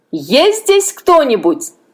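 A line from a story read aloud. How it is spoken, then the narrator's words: Loud shout. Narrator (Russian): Другой громко крикнул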